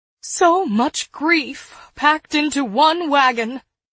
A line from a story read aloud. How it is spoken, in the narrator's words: she said tearfully